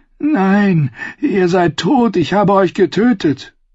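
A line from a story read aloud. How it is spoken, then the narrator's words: Groaning. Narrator (German): stöhnte Brienne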